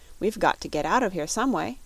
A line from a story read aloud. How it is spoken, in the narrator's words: he said firmly